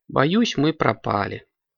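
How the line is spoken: Sighing. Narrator (Russian): вздохнула Настя

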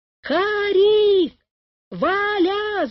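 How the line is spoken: Mother's shout. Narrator (Russian): закричала мама

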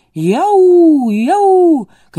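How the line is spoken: Terrible animal voice. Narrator (Russian): каким-то страшным звериным голосом

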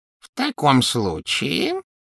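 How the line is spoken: Ingratiating goblin voice. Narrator (Russian): вкрадчиво произнес гоблин

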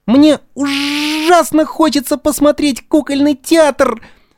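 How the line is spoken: Tearful. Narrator (Russian): Сквозь слезы сказал Буратино

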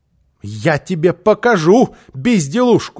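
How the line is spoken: Shouting woman. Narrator (Russian): закричала она

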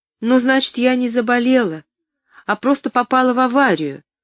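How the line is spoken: Relieved exclamation. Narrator (Russian): с облегчением воскликнула Поллианна

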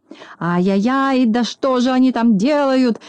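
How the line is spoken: Furious shouting. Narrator (Russian): закричал Клопс, наливаясь от злости кровью

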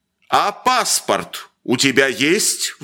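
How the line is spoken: Sudden menacing roar. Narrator (Russian): вдруг грозно взревел доктор

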